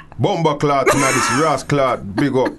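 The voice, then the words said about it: Put-on Jamaican accent. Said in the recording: “I'm working on my Yardman accent”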